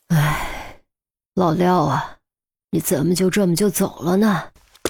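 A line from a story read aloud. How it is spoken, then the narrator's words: Regretful sigh. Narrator (Chinese): 满脸都是惋惜，叹息道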